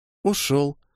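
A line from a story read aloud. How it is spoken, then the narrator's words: Sad mumble. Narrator (Russian): грустно пробормотала Микки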